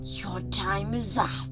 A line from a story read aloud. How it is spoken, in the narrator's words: she hissed